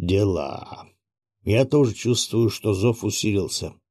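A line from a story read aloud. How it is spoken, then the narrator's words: Gloomy, old man. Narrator (Russian): мрачно проговорил старик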